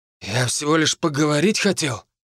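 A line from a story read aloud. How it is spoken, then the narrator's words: Boy's sullen mutter. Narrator (Russian): буркнул пацан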